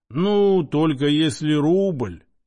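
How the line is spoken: Drawling. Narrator (Russian): протянул Иона

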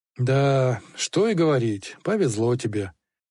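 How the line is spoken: Driver's sigh. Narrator (Russian): снова вздохнул ездовой

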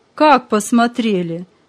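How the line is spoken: Laughing father. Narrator (Russian): засмеялся отец

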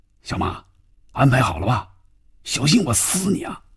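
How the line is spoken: Tense, low voice. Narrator (Chinese): 范宇宙的心里更加紧张了，压低嗓音说

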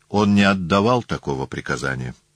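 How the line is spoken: Calm reply. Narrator (Russian): тем же спокойным тоном Блосси ответил

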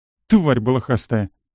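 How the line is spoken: Snorting retort. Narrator (Russian): фыркнула девушка в отместку

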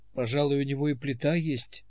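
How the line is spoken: Gloomy. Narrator (Russian): сказал он мрачно

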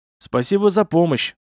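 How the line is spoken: Snorted. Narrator (Russian): хмыкнул я

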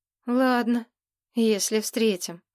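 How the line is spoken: Sigh. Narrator (Russian): вздохнул Ник

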